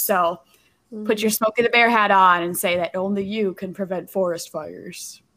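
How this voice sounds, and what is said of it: Poor imitation of Smokey the Bear. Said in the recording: “That was a bad imitation”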